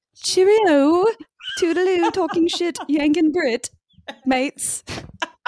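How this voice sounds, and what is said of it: Put-on British accent. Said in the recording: “I'm going to say goodbye in my best Gemma accent ... I love it when you do a British accent”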